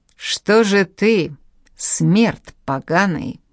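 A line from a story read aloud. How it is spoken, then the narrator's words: Menacing. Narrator (Russian): начал грозно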